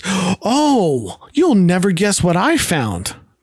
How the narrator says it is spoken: Rose exclaims

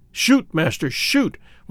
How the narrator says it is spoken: whispered the Hottentot

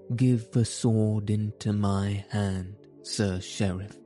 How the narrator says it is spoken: said he

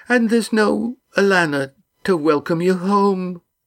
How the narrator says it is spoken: said Molly tearfully

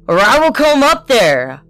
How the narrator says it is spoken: roared

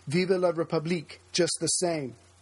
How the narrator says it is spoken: one conservative senator, who had voted no, cried

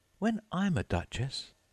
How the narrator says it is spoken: she said to herself, not in a very hopeful tone

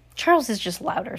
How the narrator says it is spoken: said Max

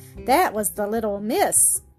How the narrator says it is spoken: Sebastian chuckled to himself

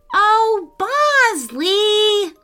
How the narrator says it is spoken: Lila cried

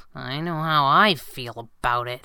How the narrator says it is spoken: Abigail muttered through her meatloaf

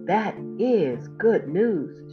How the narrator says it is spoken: exclaimed

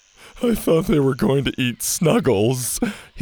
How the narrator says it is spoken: his friend Jake whimpered

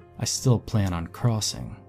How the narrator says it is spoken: he said

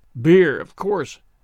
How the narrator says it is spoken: grumbled Jemima

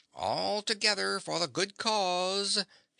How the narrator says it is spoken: shrieked the King Crow

